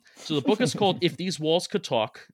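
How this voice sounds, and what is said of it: Put-on New York accent. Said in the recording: “Do you like my New York accent? ... Yeah, it's not bad. It's not bad.”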